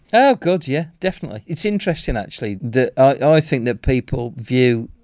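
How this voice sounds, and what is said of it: Birmingham Black Country accent. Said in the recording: “a Birmingham Black Country accent”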